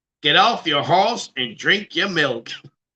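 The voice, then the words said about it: Put-on Texan accent. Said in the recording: “Do a Texas accent.”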